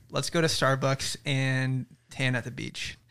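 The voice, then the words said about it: Put-on American accent. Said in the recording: “Can we hear your best American accent impression? ... That was so good. ... You're an American now.”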